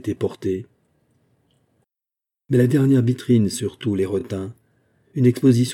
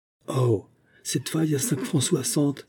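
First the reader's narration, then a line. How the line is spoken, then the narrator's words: Astonished murmur. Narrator (French): murmura Denise, étonnée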